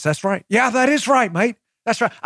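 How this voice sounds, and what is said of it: Put-on Australian or Kiwi accent. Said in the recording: “I don't know if that's more of a Kiwi or an Australian accent.”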